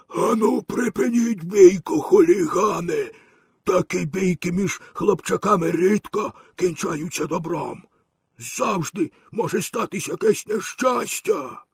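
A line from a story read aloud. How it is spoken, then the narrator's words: Hoarse, husky calling. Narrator (Ukrainian): великий краб загукав хрипким застудженим голосом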